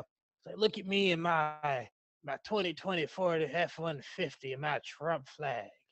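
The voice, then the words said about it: Spot-on put-on accent. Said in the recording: “That accent was spot on.”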